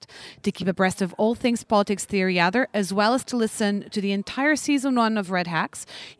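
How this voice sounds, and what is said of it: Hard-to-place accent. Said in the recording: “geographically unplaceable accent”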